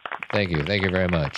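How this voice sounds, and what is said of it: Elvis-style impression. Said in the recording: “does an Elvis impersonation.”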